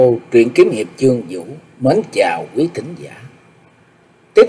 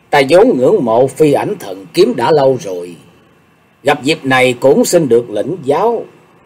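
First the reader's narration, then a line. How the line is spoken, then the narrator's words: Smiling. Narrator (Vietnamese): Sùng đại sư lúc này chỉ mỉm cười nói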